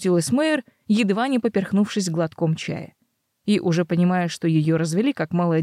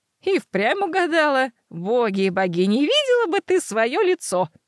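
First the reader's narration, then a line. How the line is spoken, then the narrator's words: Ringing girlish laughter. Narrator (Russian): Матушка заливисто по-девичьи расхохоталась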